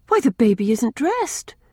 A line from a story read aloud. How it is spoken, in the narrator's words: she exclaimed, in a shocked tone